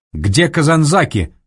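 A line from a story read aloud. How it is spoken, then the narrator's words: General's bark. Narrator (Russian): рявкнул генерал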